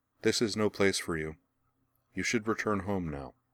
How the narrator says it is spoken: she told him flatly

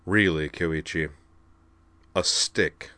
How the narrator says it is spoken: he said dryly

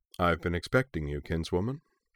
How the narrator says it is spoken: he said, his voice calm and rich

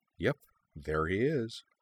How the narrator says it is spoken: Lindsay leaned toward Kaname and murmured

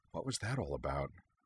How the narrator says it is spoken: Lindsay asked quietly

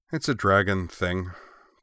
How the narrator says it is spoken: Corwin said wearily

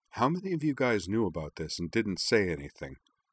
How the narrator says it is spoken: She asked Liara in her low voice

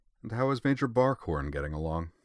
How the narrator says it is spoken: in the same calmly solicitous tone, he said

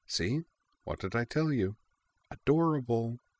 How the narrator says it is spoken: Azalin murmured to Kate

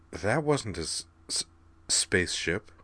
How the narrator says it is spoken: Kate muttered

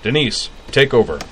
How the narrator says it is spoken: He barked to one of the waitresses

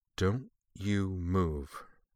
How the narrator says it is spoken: Fee said, her voice low

